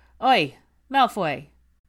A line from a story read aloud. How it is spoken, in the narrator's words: Fred's portress called out to him